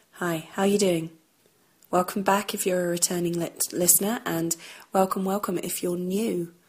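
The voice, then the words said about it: Croaky, hoarse voice. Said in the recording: “my voice is still not quite right ... I've had another cold ... my voice is still liable to go all croaky and hoarse if I talk too much”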